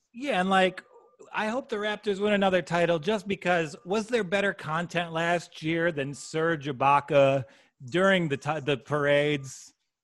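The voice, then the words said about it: Midwestern Michigan/Chicago-type accent. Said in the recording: “I'm cursed with this Michigan tongue. I sound like a fat guy from Chicago who's also a Jewish man from Long Island.”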